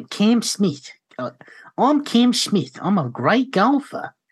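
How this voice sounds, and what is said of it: Londoner attempting Australian accent. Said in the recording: “like a bloke from London who's trying to do an Australian accent”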